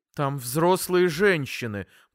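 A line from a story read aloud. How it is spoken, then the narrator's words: Irritated. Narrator (Russian): произнесла раздраженно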